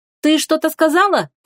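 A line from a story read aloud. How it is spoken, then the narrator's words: Distant shout. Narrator (Russian): крикнула откуда-то со стороны Лая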